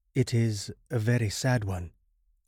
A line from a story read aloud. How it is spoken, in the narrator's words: I murmured, scarcely knowing what to answer